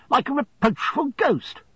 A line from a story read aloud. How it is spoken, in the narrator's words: he said almost angrily